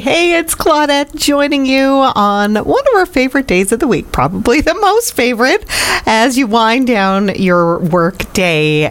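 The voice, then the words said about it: Slightly hoarse voice. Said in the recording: “my voice is a little hoarse from singing that song”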